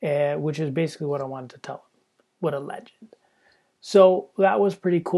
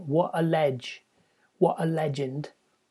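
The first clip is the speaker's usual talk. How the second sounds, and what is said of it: Put-on English accent. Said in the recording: “you have to say it in an English accent.”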